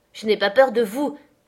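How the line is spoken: Exclaimed. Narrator (French): s'écria Catherine

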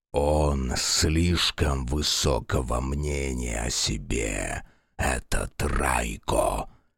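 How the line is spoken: Grumbling with snorts. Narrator (Russian): ворчал дракон-божество, то и дело фыркая в пышные усы

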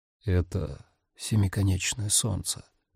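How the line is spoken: Whisper. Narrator (Russian): прошептал

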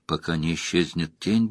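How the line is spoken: Mutter. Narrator (Russian): бормотал он

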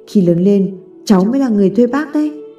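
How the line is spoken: Smiling speech. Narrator (Vietnamese): Tommy mỉm cười nói

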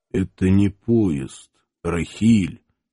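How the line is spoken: Strained, hoarse voice. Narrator (Russian): осевшим голосом выдавил Иван

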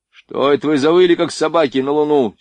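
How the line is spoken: Angry shout. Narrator (Russian): сердито крикнул Шульц с мостика

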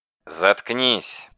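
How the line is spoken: Muttering. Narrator (Russian): пробормотал Рен

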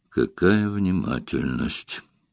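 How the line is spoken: Grumbling. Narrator (Russian): проворчал Эллери

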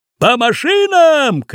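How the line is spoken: Shouting. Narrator (Russian): крикнул дядя Сюва

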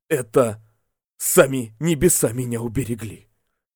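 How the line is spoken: Quiet voice. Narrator (Russian): Не удержавшись, он произнес тихим голосом

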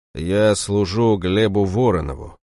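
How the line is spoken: Dull muffled voice. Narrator (Russian): глухо произнес

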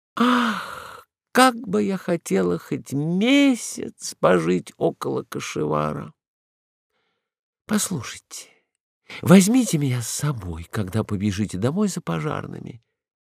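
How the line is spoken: Sighing, languid. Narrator (Russian): вздохнула, томно закатила глаза и проговорила

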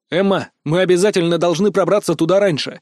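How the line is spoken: Exclaimed. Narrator (Russian): воскликнул я

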